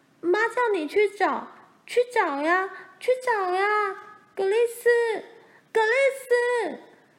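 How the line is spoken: Screaming. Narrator (Chinese): 罗兰也尖叫起来

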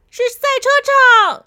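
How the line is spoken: Shouting out. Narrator (Chinese): 小扑就大叫出来

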